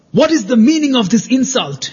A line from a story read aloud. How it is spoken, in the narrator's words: shouted Yoshiko